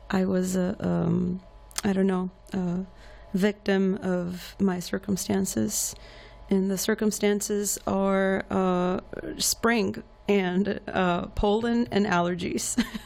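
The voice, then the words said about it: Slightly hoarse voice. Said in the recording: “I am recovering. ... My voice is still, excuse me, a little bit hoarse.”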